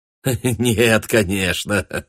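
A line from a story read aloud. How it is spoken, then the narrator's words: Laughing. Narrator (Russian): рассмеялся он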